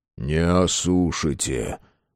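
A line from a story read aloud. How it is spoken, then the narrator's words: Grim smirk. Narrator (Russian): мрачно усмехнулся Матвей Палыч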